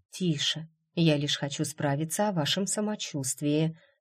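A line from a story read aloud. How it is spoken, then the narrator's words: Gentle, smiling, soothing. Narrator (Russian): ответила Джейд, мягко улыбаясь испуганному молодому человеку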